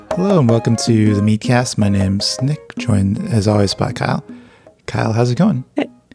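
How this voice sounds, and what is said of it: Soft, quiet public-radio announcer delivery. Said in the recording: “you were very NPR voice on that intro ... they're very low for that stretch”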